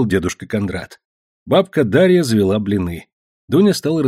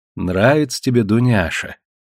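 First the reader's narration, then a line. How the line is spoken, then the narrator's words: Tender question. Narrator (Russian): ласково спросила она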